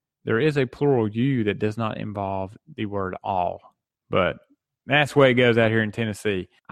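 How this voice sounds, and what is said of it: Southern American twang. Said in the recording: “my Southern twang”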